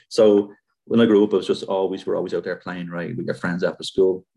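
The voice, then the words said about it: Irish accent. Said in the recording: “20 years removed from Ireland ... you wouldn't know it by the accent.”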